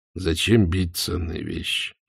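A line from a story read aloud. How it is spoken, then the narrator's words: Sighing. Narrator (Russian): вздохнул Роман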